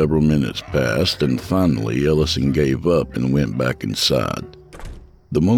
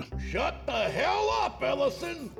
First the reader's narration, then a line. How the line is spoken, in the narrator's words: From the house next door came a shout